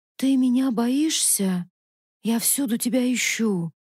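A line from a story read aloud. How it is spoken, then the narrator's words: Sad. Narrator (Russian): печально говорил Варде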